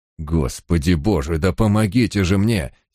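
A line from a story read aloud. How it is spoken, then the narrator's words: Angry hiss. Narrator (Russian): сердито прошипел Барак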